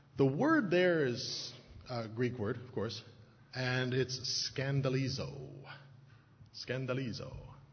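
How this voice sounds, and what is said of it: Attempted Greek accent, sounds Italian. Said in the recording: “I don't know if that's a good Greek accent or not. It sounds more Italian”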